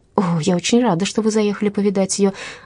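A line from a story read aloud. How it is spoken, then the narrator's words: Exclaiming. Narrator (Russian): воскликнула девушка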